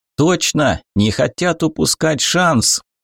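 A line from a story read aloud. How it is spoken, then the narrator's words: Joyful distant shout. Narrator (Russian): радостно крикнул старпом Ченг с надпалубной пристройки на юте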